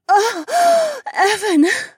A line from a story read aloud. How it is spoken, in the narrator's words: She moaned